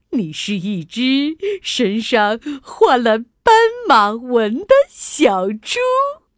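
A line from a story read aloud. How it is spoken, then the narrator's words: Laughing. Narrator (Chinese): 大象笑着说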